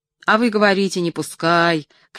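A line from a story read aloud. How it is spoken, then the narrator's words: Shouting. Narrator (Russian): кричал крановщик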